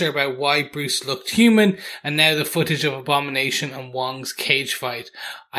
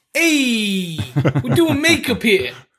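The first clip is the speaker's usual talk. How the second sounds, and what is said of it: Deliberately bad put-on accent. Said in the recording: “That's also a terrible accent”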